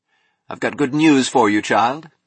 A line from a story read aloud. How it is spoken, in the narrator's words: he said